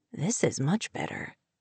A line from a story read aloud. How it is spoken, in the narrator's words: he whispered, his mouth close to her ear